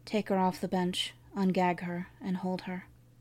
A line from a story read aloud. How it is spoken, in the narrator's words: whispered in Seth's ear